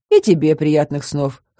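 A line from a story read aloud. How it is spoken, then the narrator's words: Snorting. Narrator (Russian): хмыкнул Брайан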